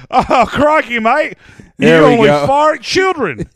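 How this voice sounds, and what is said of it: Put-on Australian accent. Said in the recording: “it's not a bad Australian accent ... It's pretty good Mel Gibson.”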